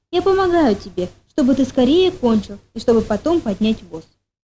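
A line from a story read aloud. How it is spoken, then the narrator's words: Calm son. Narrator (Russian): Сын спокойно ответил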